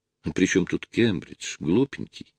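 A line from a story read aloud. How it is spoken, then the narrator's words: Barely audible laugh. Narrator (Russian): Еле слышно засмеялась Лена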